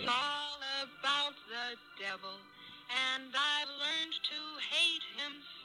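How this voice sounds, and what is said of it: Eerie, possessed-sounding old-style singing voice. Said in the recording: “She sounds like a possessed Judy Garland.”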